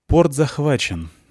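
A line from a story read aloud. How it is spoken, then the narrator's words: Grim. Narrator (Russian): сказала она мрачно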